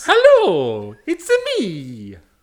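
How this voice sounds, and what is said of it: Mario character voice. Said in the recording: “doing a voice. ... That is me doing a voice. ... I am a Mario cosplayer.”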